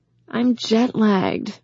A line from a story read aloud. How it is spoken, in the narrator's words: Morgan said with a groan